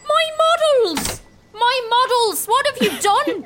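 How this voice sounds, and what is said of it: Put-on Irish accent, upset shouting. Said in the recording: “I've become Irish! ... my accent's completely changed”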